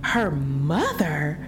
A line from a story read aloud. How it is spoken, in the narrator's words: cried a half dozen voices